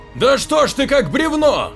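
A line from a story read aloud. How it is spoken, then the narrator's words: Shouted. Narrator (Russian): выкрикнул Рейхард старику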